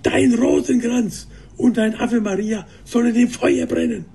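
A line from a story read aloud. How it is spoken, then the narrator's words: Roaring. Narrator (German): brüllte er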